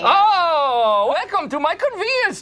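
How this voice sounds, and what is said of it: Very exaggerated put-on Indian accent. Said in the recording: “starts doing a very exaggerated Indian accent... like Apu on acid”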